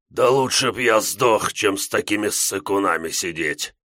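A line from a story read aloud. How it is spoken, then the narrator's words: Slightly hoarse. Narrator (Russian): Якорь говорил немного сипло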